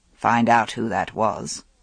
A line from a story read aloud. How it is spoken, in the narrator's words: Arthur said in a low voice